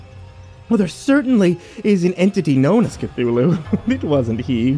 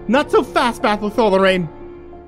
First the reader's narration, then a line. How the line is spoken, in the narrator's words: Lorena gasped in pain